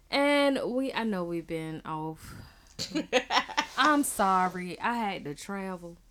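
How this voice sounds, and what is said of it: Country-sounding accent. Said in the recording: “Ooh, that sound real country, didn't it?... Any accent could come out. It could be a Hispanic accent, you know, or a Caribbean accent.”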